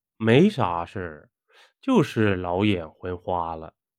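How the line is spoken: Sighing. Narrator (Chinese): 老王叹道

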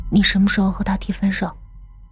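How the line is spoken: Gentle, tender. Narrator (Chinese): 冯安心 柔声说

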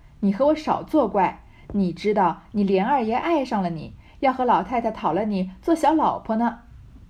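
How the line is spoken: Laughing. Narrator (Chinese): 凤姐儿笑道

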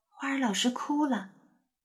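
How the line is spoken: Softly. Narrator (Chinese): 有人轻声说

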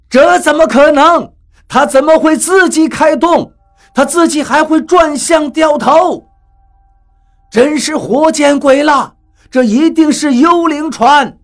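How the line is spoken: Startled cry. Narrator (Chinese): 有一个人惊叫起来

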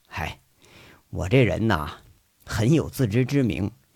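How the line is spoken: Wistful after a laugh. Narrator (Chinese): 杨伟 不由自主的就笑了，一笑之后却是有点失落，说了一句

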